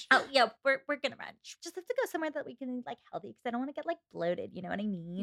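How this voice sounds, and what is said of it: Put-on Valley Girl accent. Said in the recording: “a Valley Girl accent ... Do your classic rom-com accent from California.”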